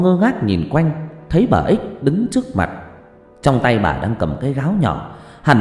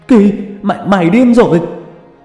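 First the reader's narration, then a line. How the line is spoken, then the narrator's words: Panicked yell. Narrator (Vietnamese): Ông la lên thất thanh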